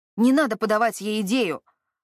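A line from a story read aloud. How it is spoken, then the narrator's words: Snapping retort. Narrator (Russian): огрызнулся тот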